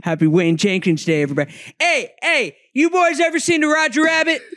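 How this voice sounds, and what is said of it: Put-on Baltimore accent. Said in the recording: “I was working on my Baltimore accent in the car right over here.”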